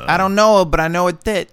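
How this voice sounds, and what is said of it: Put-on French accent. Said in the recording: “Perfect French accent.”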